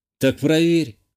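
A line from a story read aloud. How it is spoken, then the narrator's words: Snorting. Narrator (Russian): хмыкнул я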